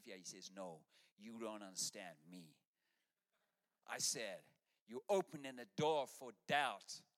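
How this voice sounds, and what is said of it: Imitates another person's accent, badly. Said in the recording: “Terrible accent, hey.”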